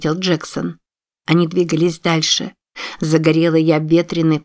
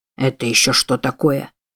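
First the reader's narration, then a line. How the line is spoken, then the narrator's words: Muttered. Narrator (Russian): пробормотал Джексон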